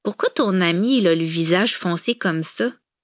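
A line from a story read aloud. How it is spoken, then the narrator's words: Curt embarrassed reply. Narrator (French): Empourprée devant l'impertinence de sa nièce qui confirmait ses craintes, Clémence répliqua sèchement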